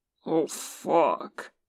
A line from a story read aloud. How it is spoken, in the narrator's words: Boston groans